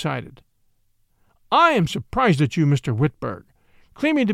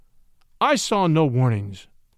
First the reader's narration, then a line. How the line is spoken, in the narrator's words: said Saul Whitberg